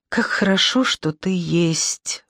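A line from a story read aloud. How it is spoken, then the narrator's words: Whispering. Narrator (Russian): шептал он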